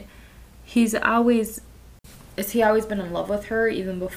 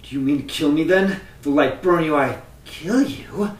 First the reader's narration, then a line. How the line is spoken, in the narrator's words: She spat incredulously